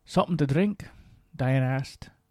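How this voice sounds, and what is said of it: Amateur put-on Scottish accent. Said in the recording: “I'll be performing her role with my own version of a Scottish accent ... I'm no Bill Gibson”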